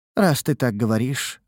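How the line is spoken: Sighing. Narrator (Russian): вздохнула блондинка

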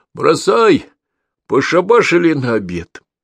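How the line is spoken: Authoritative calling out. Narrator (Russian): покрикивая солидным голосом

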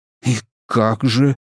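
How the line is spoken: Whispered. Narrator (Russian): прошептал я

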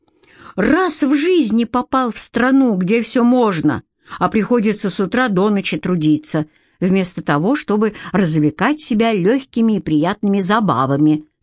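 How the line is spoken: Moaning. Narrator (Russian): стонал Петька

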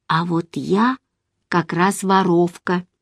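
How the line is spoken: Calm. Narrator (Russian): спокойно сказала я

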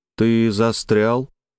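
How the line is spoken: Even level tone. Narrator (Russian): Электроник продолжил все тем же ровным тоном

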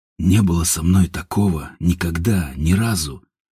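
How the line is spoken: Quiet whisper. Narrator (Russian): тихо прошептал Степан

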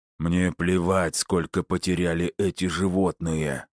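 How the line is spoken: Hoarse whisper. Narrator (Russian): хрипло прошептал Филин

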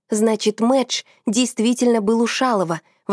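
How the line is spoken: Exclaimed. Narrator (Russian): воскликнул Лёха

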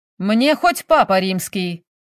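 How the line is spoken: Loud bark. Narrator (Russian): гаркнул Наполеонов

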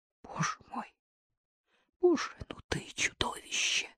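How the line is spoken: Barely audible whisper. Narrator (Russian): шепнула она едва слышно в спину Хромину

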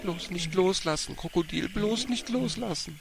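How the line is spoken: Whimpering. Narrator (German): wimmerte

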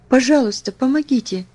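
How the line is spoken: Pleading. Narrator (Russian): взмолилась я

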